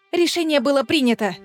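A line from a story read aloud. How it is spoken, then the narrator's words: Snapping retort. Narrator (Russian): Огрызнулась Аэлина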